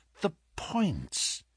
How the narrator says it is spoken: he muttered

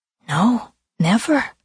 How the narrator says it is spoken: Claire whispered

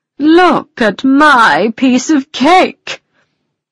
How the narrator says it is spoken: cried the unicorn

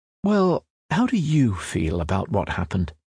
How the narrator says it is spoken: the therapist is most likely to ask, in a caring voice

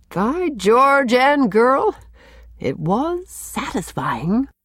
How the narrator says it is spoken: the doctor threw back his head and chuckled

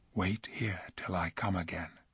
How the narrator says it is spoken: he whispered to the other two

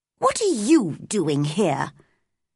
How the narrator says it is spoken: she asked crossly

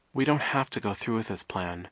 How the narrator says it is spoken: Violet said quietly

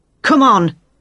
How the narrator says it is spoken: Jane shouted

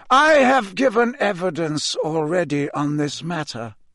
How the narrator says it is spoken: he said calmly

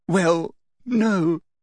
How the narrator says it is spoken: sobbed Hermione

